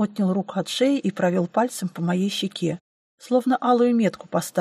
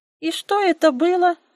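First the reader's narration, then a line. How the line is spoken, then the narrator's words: Squeak. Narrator (Russian): пропищала Энджи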